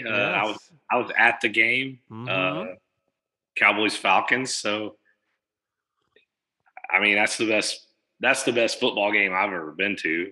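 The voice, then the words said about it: Slightly hoarse voice. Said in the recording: “My voice is a little hoarse. ... lots of yelling yesterday.”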